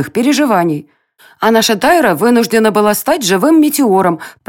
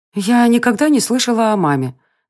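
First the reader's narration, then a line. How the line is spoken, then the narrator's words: Quiet, hesitant. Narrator (Russian): наконец тихо произнесла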